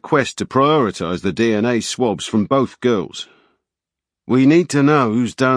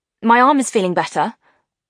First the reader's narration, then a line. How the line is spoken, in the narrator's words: Rosie said, as if everything was normal, but her voice was high and tight